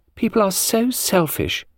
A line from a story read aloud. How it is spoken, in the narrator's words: piped a girl's voice